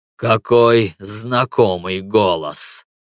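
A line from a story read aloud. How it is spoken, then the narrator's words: Strange, altered voice. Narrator (Russian): сказала Юля не своим голосом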